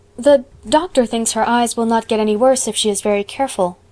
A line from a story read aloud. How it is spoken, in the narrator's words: faltered Anne